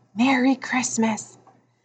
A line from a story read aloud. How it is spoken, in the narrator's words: Maniac whispered